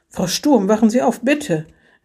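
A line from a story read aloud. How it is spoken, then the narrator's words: Exclaimed. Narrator (German): rief aus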